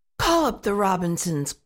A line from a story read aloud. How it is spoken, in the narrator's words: growled Mr